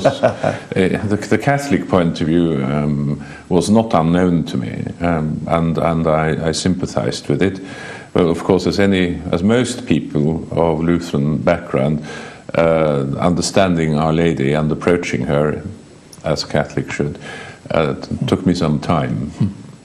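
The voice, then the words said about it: British-sounding English accent. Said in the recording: “your accent, your English accent sounds British”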